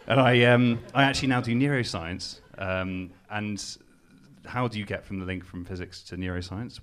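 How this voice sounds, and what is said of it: Newcastle English accent. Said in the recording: “I'm not from Cambridge, as you can tell from my accent. ... I'm from Newcastle.”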